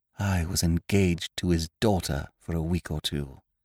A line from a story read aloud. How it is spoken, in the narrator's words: I said in a hushed voice